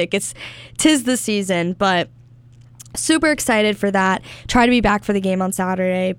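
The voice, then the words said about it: Hoarse, strained voice. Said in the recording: “losing my voice a little bit ... I am a little sick”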